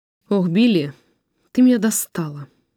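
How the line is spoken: Sighing. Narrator (Russian): вздохнул он

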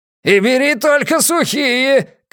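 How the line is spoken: Calling after someone. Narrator (Russian): крикнул ему вслед Пузан

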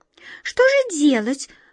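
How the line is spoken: Anxious squeak. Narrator (Russian): взволнованно пискнула первая мышка

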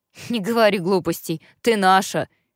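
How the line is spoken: Resolute deep bass. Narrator (Russian): решительно пробасил Глен

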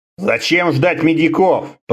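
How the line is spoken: Grumbling mutter. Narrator (Russian): пробурчал Конан

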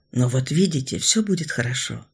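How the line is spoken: Close whisper in ear. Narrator (Russian): прошептал, наклонившись к ее уху

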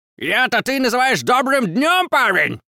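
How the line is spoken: Furious roar. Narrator (Russian): Взревел Богарт яростно

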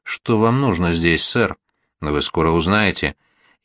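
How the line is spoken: Quiet, menacing. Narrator (Russian): сказал тихо, угрожающим голосом

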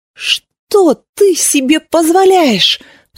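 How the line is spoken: Hysterical cry. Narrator (Russian): вскрикнула она, истеричные нотки в ее голосе

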